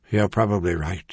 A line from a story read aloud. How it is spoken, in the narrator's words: Merlin had sighed